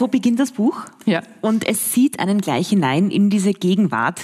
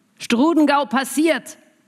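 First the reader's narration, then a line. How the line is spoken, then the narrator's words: Calling across deck. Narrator (German): ruft jemand über Deck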